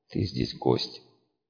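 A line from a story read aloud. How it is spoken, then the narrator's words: Barely audible whisper in ear. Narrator (Russian): еле слышно шептала ему на ушко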